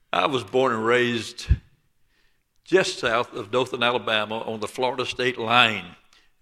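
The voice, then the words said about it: Southern Alabama accent. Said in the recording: “You can tell by my accent I'm from L.A. ... Lower Alabama.”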